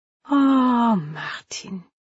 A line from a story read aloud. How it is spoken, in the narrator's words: she said, sighing